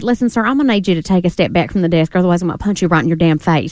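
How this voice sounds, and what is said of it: Put-on Southern accent. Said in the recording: “You can say anything you want in a Southern accent, and people will take it as being nice ... they love the accent”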